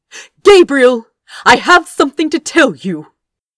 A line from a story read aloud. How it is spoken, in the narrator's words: said loudly